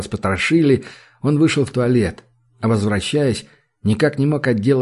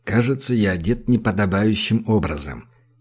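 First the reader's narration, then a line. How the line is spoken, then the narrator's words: Quiet. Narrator (Russian): тихо сказал он Джуду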